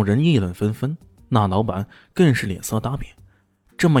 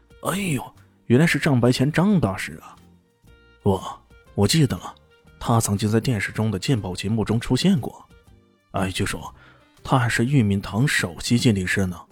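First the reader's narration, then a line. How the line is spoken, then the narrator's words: Amazed exclaiming. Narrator (Chinese): 周围马上响起一阵惊叹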